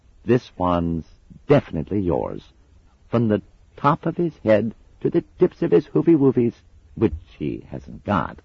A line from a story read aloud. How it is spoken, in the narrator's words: she added hastily